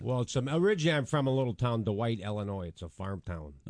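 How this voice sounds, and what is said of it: Chicago accent. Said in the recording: “You just got a great Chicago accent.”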